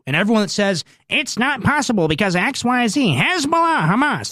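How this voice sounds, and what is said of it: Mark Levin impression. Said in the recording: “my Mark Levin impression”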